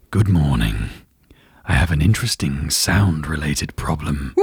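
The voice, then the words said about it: Imitates a fictional character's voice. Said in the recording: “why don't you do a Geralt impression? ... From The Witcher, this is Henry Cavill.”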